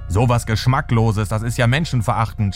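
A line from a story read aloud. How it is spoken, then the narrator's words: Screaming. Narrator (German): schreit er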